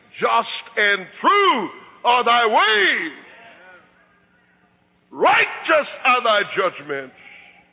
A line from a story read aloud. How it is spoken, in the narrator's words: everybody who is still alive is going to raise his voice and sing